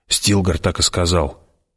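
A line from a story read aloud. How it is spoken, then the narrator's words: Doubtful mutter. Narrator (Russian): пробормотала она, однако в ее голосе звучало недоверие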